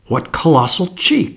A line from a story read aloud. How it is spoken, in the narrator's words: I exclaimed